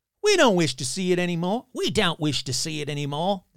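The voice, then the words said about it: Put-on accent. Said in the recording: “There's your little accent for it.”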